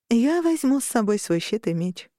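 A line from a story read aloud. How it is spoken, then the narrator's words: Purring. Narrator (Russian): промурлыкала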